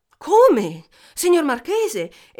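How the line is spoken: King exclaiming. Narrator (Italian): esclamò il re

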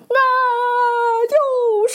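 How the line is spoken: Shout. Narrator (Chinese): 雪貂大喊

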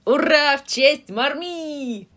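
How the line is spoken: Impatient excited shout. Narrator (Russian): Закричала Джо, прыгая от нетерпения

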